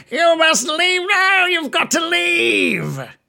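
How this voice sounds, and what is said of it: Shouted character voice, not deep enough. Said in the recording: “That was a little Billy-ish... That was far too Billy-ish. It's normally his voice is much deeper”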